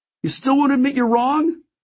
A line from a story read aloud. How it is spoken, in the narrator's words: Cruz was shouting